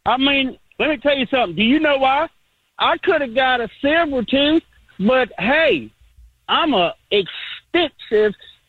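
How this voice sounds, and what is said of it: Heavy Southern US accent. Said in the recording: “between the accent ... a heavy Southern accent”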